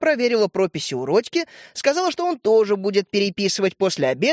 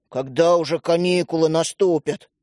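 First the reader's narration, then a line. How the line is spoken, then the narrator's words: Grumbling. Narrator (Russian): пробурчал Родька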